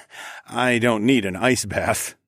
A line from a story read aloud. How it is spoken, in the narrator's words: I chuckled